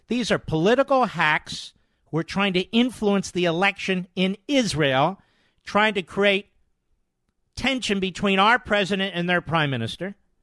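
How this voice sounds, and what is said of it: Loud yelling delivery. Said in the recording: “I'm yelling at him. No, I'm yelling at the libs.”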